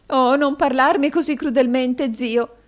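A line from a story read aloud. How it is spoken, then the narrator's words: Sobbing. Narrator (Italian): singhiozzò la signora Kenwigs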